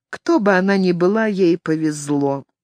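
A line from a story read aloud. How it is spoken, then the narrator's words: Quiet. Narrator (Russian): та тихо проговорила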